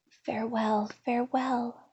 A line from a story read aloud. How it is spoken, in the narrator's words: whispered the little elf, unable to witness any longer her grief and pain